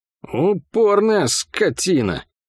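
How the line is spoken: Through gritted teeth. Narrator (Russian): процедил сын Ирбиса

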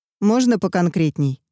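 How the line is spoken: Cold request. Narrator (Russian): холодно попросил Малколм

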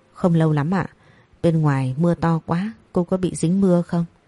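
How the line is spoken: Nervous trembling boy. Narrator (Vietnamese): Phong đang hồi hộp ... cậu run run cất lời

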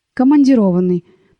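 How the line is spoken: Almost calmly. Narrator (Russian): почти спокойно сказала Надежда

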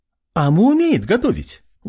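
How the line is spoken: Exclaiming. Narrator (Russian): воскликнула

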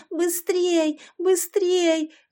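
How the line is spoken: Yelling. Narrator (Russian): вопила Яшка

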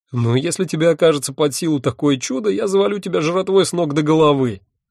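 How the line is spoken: Roaring laughter. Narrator (Russian): расхохотался он

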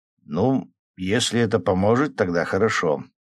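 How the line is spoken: Uncertain. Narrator (Russian): неуверенно сказал Лева

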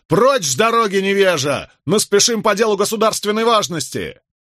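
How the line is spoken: Loud angry bark. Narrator (Russian): Николас, нахмурившись, рявкнул, что есть мочи

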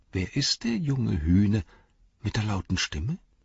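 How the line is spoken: Whispered. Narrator (German): flüsterte er

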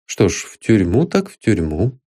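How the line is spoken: Calm. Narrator (Russian): спокойно выговорил бывший присяжный поверенный

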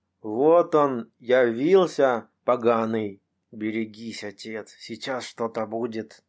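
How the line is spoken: Old man's parched whisper. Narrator (Russian): прошептал дед пересохшими от жара губами

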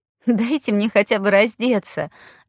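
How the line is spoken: Relieved laughing. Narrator (Russian): рассмеялась она, ощущая, как пропадает напряжение

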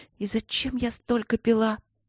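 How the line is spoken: Whispered. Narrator (Russian): прошептала она

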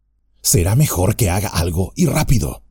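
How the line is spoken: Whispered in ear. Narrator (Spanish): le susurró Trancos al oído

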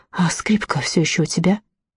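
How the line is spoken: Whisper in ear. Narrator (Russian): Росита шепнула ему на ухо

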